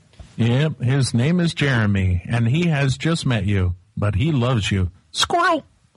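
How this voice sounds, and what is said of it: Imitates another person's voice. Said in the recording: “my impression of you writing a book”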